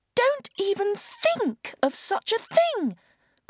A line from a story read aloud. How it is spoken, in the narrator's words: cried the Ragdoll in horror